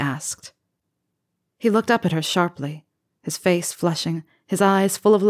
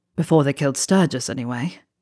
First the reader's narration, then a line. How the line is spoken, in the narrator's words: he said bitterly